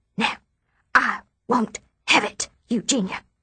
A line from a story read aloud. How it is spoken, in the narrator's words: Mother whispers